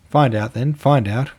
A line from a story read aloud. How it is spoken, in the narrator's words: cried the boys, laughing